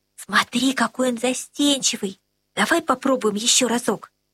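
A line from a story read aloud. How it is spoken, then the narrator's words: Whisper. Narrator (Russian): Она прошептала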